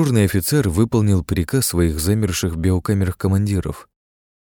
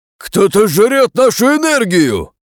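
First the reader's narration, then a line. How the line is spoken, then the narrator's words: Commander shouting, losing control. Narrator (Russian): крикнул, потеряв над собой контроль, один из военачальников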